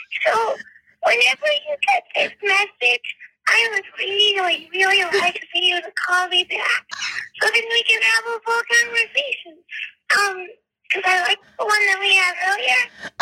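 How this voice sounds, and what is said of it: Baby voice. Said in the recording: “That was you talking to me in a baby voice.”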